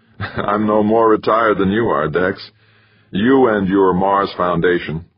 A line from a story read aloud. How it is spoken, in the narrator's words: Laughing, Kinnear said